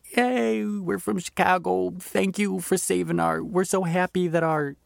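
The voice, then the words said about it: Attempted Chicago accent. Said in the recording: “I don't know how to do a Chicago accent clearly”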